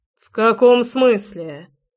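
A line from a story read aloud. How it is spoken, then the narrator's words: Demanding bark. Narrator (Russian): требовательно рявкнул он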